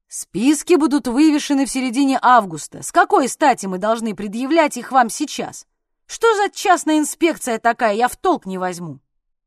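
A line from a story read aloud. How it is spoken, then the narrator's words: Man, angry and loud. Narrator (Russian): Какой-то мужчина говорил сердито и громко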